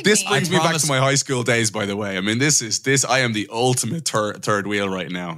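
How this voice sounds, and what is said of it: Dublin Irish accent. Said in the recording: “You hear the Dublin accent there saying third wheel.”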